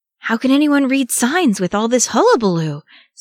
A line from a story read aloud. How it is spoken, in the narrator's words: Sam gasped